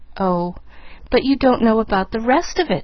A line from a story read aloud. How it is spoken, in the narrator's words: she reminded him, eagerly